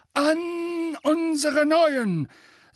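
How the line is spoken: Booming, beaming voice. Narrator (German): sagte mit schallender Stimme, ein strahlendes Lächeln auf den Lippen

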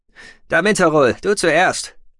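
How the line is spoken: Call. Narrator (German): rief Tech

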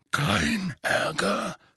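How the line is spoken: Growled. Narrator (German): knurrte

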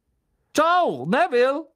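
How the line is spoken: Calling out. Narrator (German): rief Stan

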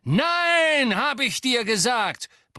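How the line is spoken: Roared at someone. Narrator (German): brüllte Lucius Malfoy die Frau an

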